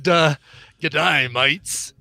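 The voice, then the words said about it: Put-on Australian accent. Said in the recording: “He even actually did Aussie accent, so he wanted me to say that in an Aussie accent.”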